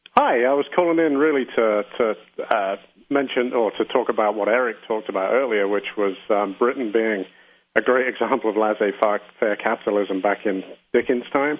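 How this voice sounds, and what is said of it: Noticeable accent, authoritative-sounding. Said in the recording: “Judging by your accent, you may know a few, just a thing or two more than Eric does. ... You at least sound authoritative.”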